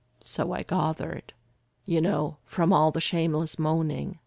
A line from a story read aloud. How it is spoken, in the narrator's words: Derek said dryly